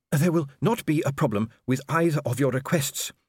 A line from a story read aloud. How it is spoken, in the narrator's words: panted